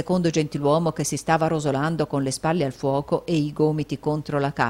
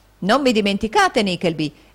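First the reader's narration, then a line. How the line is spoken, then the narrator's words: Man exclaiming. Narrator (Italian): esclamò un gentiluomo dalla faccia azzurra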